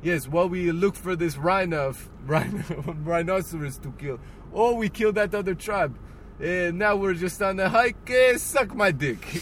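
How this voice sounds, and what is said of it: Poor imitation of Filipino accent. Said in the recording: “That is probably not at all what a Filipino sounds like. That was a bad accent for a Filipino.”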